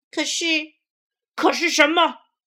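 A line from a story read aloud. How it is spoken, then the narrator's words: Roaring. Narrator (Chinese): 狐狸吼道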